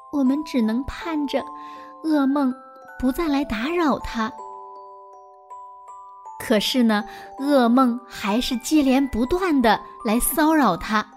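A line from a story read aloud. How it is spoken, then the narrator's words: Sighing lament. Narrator (Chinese): 王后唉声叹气地说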